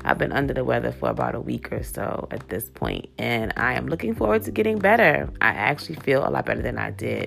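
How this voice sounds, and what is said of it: Stuffy, congested voice with cold. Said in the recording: “My voice sounds so horrible. I sound like a man, a stuffy man, like a man with a bad cold.”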